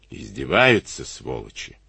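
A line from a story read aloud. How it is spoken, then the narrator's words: Lazy cursing. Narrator (Russian): Лениво выругался он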